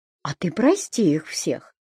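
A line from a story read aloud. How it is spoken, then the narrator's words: Calm. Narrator (Russian): спокойно сказала Люба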